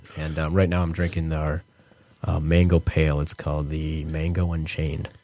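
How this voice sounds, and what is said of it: Smooth low radio-announcer voice. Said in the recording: “You just have that the perfect voice for coming up next. ... NPR voice ... he's almost got the pillow talk voice.”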